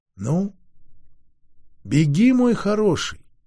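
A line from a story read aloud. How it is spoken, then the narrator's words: Tender, as to a pet. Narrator (Russian): ласково, словно любимому коту или песику, сказала Делия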